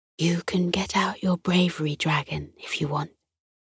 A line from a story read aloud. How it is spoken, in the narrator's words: Miss Fudge whispered to Isla across the classroom